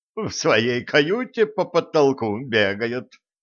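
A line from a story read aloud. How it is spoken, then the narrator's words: Giggling. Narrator (Russian): хихикнула Нола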